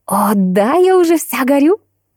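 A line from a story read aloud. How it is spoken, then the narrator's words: Exclaimed. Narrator (Russian): воскликнула Биби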